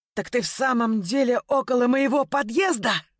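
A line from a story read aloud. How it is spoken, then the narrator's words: Jubilant yell. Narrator (Russian): проорал ликующим голосом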